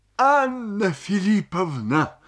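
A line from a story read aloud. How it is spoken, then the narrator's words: Sobbing. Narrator (Russian): сказал он, всхлипывая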